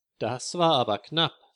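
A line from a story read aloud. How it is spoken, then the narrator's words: Plain. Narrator (German): sagte Herr Weißer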